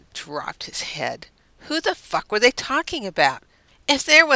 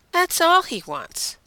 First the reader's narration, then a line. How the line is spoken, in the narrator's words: Deanna said firmly